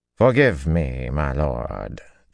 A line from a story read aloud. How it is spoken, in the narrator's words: Ty Lee drawled in careful tones